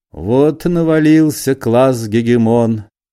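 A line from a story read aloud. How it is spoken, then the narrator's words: Sad speech. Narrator (Russian): сказал Остап печально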